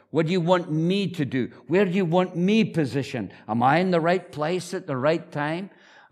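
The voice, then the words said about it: Speaks with a noticeable accent. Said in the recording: “that guy with a funny accent”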